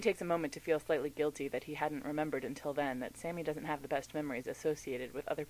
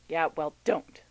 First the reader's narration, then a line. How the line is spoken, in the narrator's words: snaps Sam